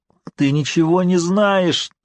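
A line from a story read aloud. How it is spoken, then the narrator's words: High-pitched cry. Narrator (Russian): тонким голосом вскричал Баттервилл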